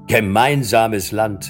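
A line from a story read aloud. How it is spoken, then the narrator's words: Called out, laughing loudly. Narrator (German): rief Harry und lachte laut auf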